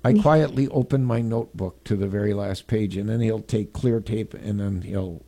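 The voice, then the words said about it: Creepy storytelling voice. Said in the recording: “stop reading it in that creepy voice ... I gotta do the creepy voice”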